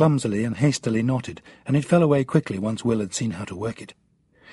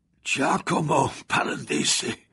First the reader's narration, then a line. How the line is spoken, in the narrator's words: the old man muttered through broken teeth